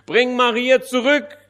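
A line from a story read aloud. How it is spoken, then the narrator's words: Called out. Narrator (German): rief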